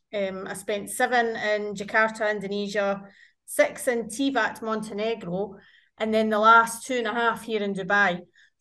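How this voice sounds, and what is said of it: Scottish accent. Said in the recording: “I've been out of Scotland for 16 years ... obviously the accent remains ... the”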